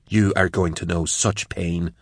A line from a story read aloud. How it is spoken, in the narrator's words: hissed